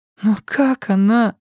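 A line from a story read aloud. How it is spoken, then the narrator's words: Crushed, despairing question. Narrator (Russian): убитым голосом спросила Синтия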